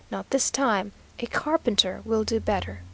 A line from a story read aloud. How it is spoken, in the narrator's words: he said to her very coolly